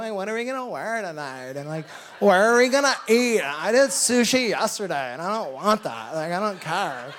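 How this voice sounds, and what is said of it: Nasal Southern California voice. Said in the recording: “I don't do that voice normally ever ... it's kind of like what the nasally Christian sounds like in SoCal”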